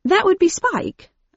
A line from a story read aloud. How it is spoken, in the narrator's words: I replied brightly